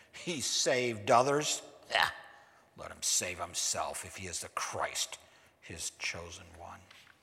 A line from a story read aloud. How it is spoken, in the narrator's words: the ruler scoffed at him, saying